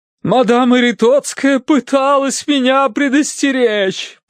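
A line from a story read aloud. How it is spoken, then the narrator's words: Moaning. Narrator (Russian): простонала миссис Меринг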